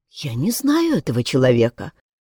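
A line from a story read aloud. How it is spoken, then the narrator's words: Quiet female voice. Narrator (Russian): тихо произнесла Анна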